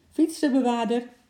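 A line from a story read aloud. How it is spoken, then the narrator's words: Man calling from afar. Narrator (Dutch): riep een meneer verderop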